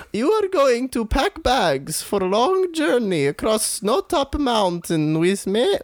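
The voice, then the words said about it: Put-on accent. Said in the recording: “Your accent is simply beautiful. Where are you from?”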